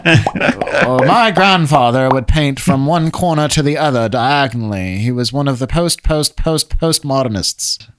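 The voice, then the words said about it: Exaggerated upper-class British accent. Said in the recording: “this communist voice ... accent, which has no origin ... lampooning ... Average British, upper-class British ... speaking in a way that they're trying desperately to make it sound important”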